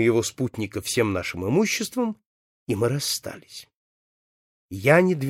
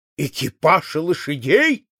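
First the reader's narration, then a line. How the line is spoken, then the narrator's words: Sharp exclamation. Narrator (Russian): вскрикнул он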